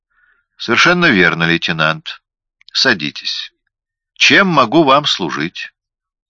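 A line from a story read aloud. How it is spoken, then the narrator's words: Calm, indifferent voice. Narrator (Russian): Его голос звучал спокойно и равнодушно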